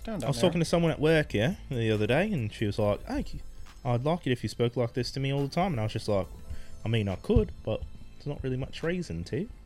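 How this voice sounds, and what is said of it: Fake put-on accent. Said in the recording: “Kind of acting a bit fake, are you?... I definitely am doing a fake accent. It's not my real accent.”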